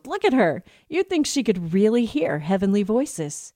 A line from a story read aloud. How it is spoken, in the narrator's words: My father-in-law chuckled